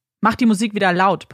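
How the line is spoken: Bellowed. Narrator (German): brüllte er

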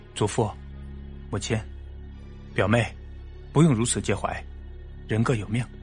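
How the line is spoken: Faint calm smile. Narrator (Chinese): 凤准淡淡一笑

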